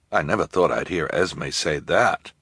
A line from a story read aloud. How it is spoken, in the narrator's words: Jerome murmured